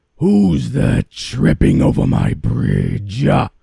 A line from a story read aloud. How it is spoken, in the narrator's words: roared the troll